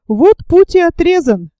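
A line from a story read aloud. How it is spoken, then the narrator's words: Exclaimed. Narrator (Russian): воскликнул Наб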